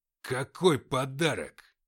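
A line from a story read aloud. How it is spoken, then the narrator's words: Growled. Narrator (Russian): зарычал Матвей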